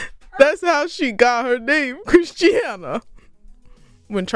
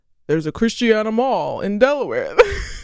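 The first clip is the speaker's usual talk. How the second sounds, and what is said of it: Poor Charles Barkley impression. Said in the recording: “This is such a bad impression. ... I could hear him in my head, but it's not coming through.”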